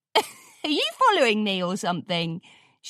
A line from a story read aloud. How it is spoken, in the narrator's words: She laughed